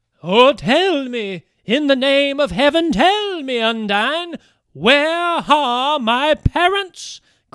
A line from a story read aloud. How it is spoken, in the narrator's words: cried the weeping Bertalda